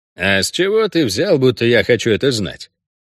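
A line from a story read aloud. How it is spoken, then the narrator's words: Unfriendly questioning tone. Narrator (Russian): Тем же неприветливым тоном задал я второй вопрос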